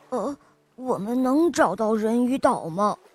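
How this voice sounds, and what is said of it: Quiet mumbling voice. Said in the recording (Chinese): “小声的嘟囔着”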